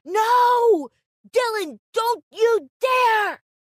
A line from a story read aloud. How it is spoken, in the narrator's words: In my earpiece, sister yelling